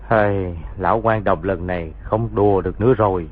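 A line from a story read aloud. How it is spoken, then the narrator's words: Sighing. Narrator (Vietnamese): thở dài nói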